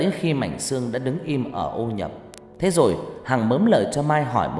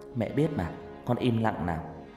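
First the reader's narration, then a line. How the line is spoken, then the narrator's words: Soft, smiling. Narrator (Vietnamese): Hằng chỉ mỉm cười khẽ nói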